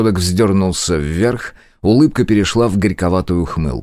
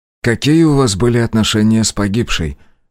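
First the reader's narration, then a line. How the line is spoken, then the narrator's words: Gentle question. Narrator (Russian): мягко поинтересовался Мин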